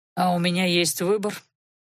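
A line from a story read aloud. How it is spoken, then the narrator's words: Muffled, dull voice. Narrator (Russian): глухо произнес Анхайлик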